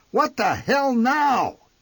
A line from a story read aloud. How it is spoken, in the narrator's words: he bellowed